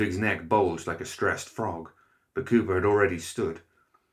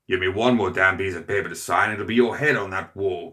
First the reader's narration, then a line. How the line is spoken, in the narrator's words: Cooper growled